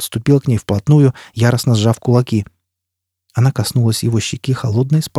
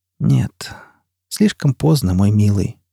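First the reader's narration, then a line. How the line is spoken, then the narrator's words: Quiet. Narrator (Russian): тихо произнесла она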